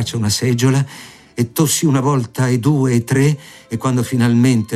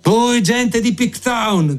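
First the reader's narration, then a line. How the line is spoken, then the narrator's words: Day guard shouts. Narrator (Italian): gridò la guardia di giorno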